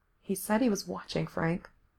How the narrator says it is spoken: Gerard said softly

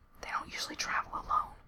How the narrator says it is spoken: Gerard whispered back

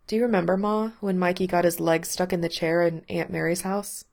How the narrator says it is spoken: She laughed, her voice husky

